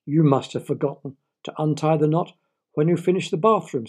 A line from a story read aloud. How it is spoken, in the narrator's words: squeaked his wife